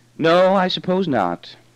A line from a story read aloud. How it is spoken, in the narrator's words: He sighed and said